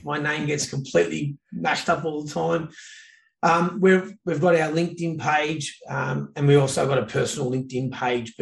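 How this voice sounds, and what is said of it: Australian accent. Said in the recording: “Aussie accent”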